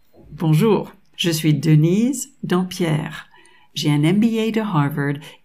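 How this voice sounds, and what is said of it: American accent speaking French. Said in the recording (French): “mon petit accent charmant... Je suis de double nationalité américaine et française”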